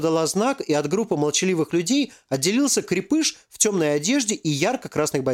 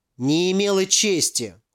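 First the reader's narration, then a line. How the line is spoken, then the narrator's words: Scornful snort. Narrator (Russian): фыркнула Валентина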